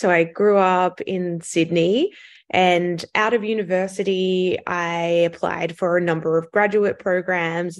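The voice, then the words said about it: Australian accent. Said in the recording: “you can probably tell from my accent that I'm Australian”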